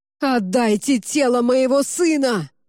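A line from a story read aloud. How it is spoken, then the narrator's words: Shouted. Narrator (Russian): выкрикнул император Константин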